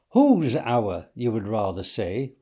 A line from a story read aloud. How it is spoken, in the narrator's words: replied the badger